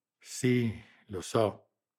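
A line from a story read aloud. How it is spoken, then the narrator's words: Grave assent. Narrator (Italian): assentì in tono grave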